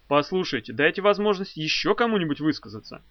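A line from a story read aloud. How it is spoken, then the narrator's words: Sharp speech. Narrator (Russian): Вульф резко сказал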